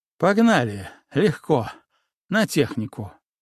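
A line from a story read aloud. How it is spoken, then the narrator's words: Breathless exhale. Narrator (Russian): выдохнул я, ощущая, что мое дыхание тоже подсбилось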